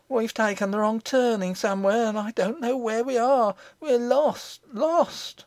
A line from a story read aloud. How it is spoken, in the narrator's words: looked wildly about her, gave a great cry, and said